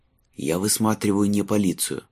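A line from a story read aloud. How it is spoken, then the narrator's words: Whispered reply. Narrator (Russian): прошептал в ответ Майлз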